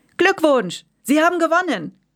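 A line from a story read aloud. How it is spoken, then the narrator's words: Repeating. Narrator (German): Bauchpeter rief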